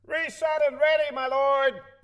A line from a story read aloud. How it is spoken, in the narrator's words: The sound effects man in the corner shouted